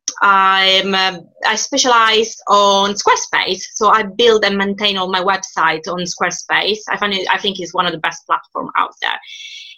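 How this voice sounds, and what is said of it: Italian accent, from Sicily. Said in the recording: “She's got a lovely, lovely accent ... as you may gather from my accent, I'm not British. I am Italian. I'm from the south of Italy, from Sicily.”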